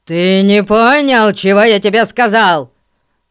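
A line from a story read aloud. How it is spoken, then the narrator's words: Roared. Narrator (Russian): проревел мистер Гун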